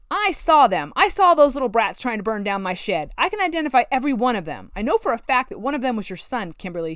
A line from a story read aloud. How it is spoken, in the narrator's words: shouted